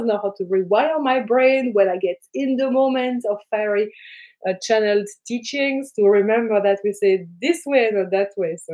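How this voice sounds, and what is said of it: French-accented English. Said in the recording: “the fun accent ... my accent was really, really weird ... My native language is French. I've been living in New Zealand for 15 years.”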